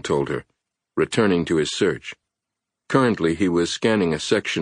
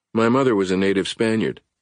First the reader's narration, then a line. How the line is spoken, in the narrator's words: Edmund had replied flatly